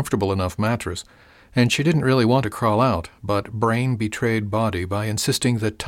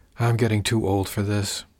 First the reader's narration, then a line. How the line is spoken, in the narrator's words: she muttered